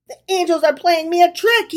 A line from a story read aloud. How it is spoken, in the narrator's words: he cried